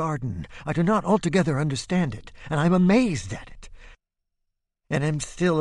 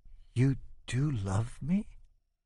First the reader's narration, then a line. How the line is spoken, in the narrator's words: Isabel whispers